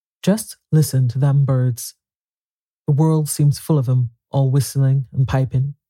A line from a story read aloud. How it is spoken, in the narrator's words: he said